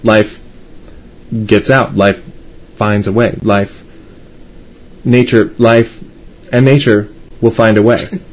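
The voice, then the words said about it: Jeff Goldblum impression. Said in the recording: “my entire Jeff Goldblum impression ... My Jeff Goldblum impression sounds a lot like my Jake impression.”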